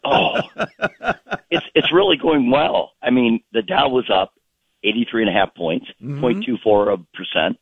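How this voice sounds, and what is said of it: Slightly hoarse voice. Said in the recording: “My laryngitis, I couldn't speak... I can hear a little bit of it still in your voice.”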